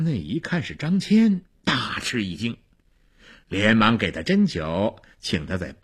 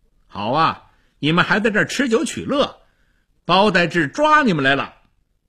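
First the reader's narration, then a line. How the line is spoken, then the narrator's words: Loud. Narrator (Chinese): 他大声地说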